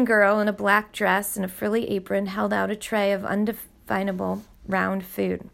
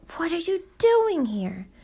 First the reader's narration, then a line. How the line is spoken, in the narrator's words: Forgetting himself, Luke blurted out